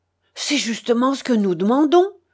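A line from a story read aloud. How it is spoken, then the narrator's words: Furious pent-up outburst. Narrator (French): s'écria Ludwig Roller avec toute la fureur d'une colère longtemps contenue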